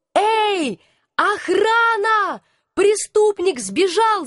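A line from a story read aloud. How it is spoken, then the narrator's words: Shouted. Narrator (Russian): закричала я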